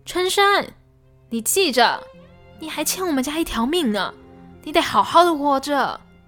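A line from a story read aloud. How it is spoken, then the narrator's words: Emotional shouting. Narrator (Chinese): 家珍终于忍不住的对他喊道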